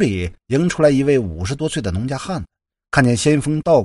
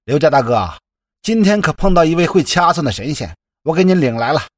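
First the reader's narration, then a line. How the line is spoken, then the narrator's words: Eager loud calling. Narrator (Chinese): 这个热心的村民就嚷嚷着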